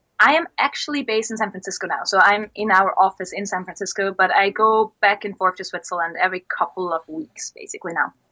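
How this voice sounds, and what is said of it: Slight German accent. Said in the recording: “my slightly German accent”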